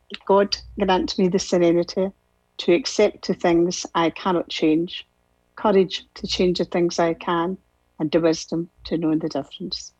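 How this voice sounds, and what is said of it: Scottish accent. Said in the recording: “from Scotland. Let's have some Scottish accent here”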